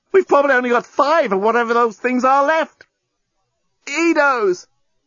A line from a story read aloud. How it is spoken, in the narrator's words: The journalist tried not to yell out with the pain of his wound